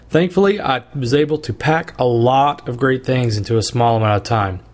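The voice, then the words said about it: Hoarse voice. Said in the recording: “as you can probably tell from my voice, I've gotten a little bit hoarse ... because of all the laughing and the talking”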